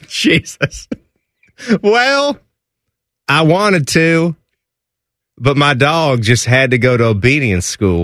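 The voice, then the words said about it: Put-on Southern American accent. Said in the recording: “You're just asking me to do a Southern accent, aren't you?”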